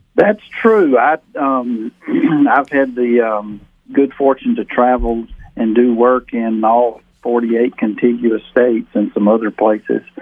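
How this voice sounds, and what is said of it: Southern American accent. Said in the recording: “We can pick up your accent so we know it's from the South.”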